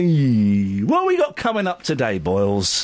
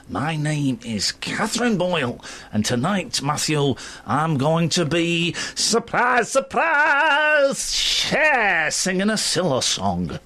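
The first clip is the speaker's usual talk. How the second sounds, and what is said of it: Put-on Manchester accent. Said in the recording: “In your lovely Manchester accent, all the way from up north ... I do not talk like that.”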